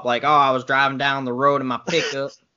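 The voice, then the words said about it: Over-the-top Southern accent. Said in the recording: “when people try to do a Southern accent, they usually go over the top”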